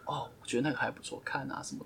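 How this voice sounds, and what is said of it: Soft, quiet murmuring voice. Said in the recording (Chinese): “很小声。... 轻声细语的说”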